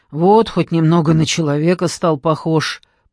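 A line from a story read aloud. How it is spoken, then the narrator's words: Grumbling watchman. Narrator (Russian): проворчал сторож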